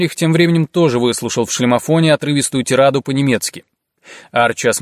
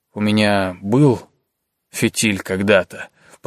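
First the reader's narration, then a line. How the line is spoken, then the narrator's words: Mumbling. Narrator (Russian): пробормотал Лученко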